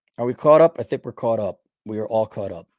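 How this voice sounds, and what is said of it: Hoarse, strained voice. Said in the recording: “Losing my voice here.”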